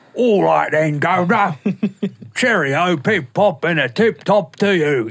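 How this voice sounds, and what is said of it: Put-on British accent. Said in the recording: “What's your British accent? ... It's probably one of the best in the business. ... So it goes to Australian real fast.”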